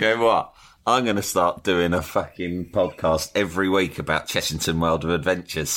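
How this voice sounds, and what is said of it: Usual voice. Nothing is said of it.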